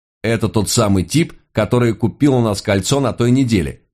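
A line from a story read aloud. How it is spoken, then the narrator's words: Exclaimed. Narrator (Russian): воскликнул он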